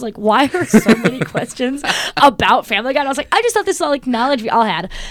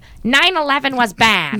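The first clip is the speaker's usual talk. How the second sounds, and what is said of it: Good impression of Lois cartoon voice. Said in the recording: “A good Lois impression.”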